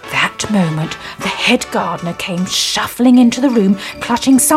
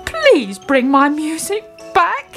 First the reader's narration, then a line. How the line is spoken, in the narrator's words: he pleaded